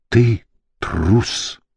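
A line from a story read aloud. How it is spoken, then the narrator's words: Whisper. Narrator (Russian): прошептал он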